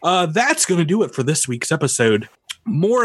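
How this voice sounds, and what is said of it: Usual voice. Nothing is said of it.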